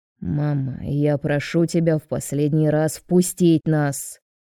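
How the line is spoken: Sharp, losing patience. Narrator (Russian): Резко говорит Роберто, теряя терпение

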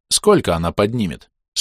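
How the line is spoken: Plain question. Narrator (Russian): спросил я

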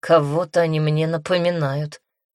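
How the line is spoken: Skeptical snort. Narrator (Russian): хмыкнул гибрид

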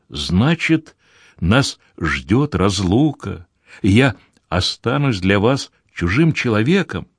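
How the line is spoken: Trembling voice question. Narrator (Russian): Дрожащим голосом спросил

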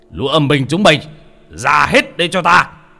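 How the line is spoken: Shouting. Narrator (Vietnamese): ông quát lên

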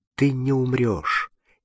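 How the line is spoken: Gentle but firm. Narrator (Russian): нежно, но твердо сказал Фабель

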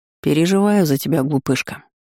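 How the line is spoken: Serious tone. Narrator (Russian): серьезным тоном сказал Наэль

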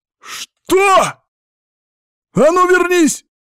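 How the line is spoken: Barked. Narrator (Russian): рявкнул я

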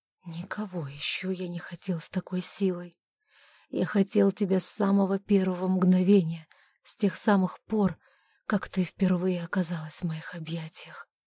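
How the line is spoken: Hoarse. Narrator (Russian): Он хрипло произнес

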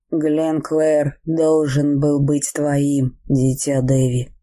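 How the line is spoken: Plain. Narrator (Russian): сказал он

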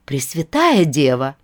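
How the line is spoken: Surprised exclamation. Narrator (Russian): воскликнула Агнеса с удивлением

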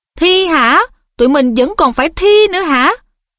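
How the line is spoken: Shrieked in dismay. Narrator (Vietnamese): Seamus rú lên

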